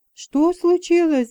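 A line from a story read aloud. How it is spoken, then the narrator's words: Anxious question. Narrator (Russian): взволнованно спрашивала я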